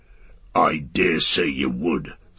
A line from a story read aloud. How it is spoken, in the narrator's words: snarled Ugluk